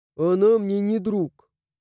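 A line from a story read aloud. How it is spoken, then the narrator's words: Grumbled. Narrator (Russian): буркнул призрак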